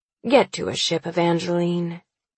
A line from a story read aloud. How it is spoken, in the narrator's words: he says slowly, his voice empty of his ability